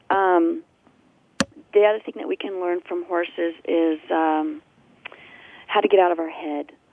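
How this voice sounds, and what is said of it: Slightly hoarse, froggy voice. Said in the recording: “I have a little frog in my throat”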